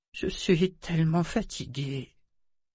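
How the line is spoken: Hoarse murmur. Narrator (French): murmura-t-elle d'une voix rauque

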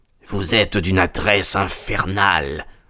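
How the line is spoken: Murmur. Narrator (French): murmura-t-il

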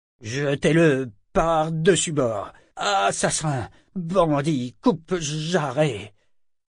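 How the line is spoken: Furious hoarse stammer. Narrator (French): Il bégayait d'une voix rauque dans sa fureur

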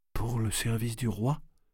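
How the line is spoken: Weak repetition. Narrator (French): répéta-t-elle faiblement

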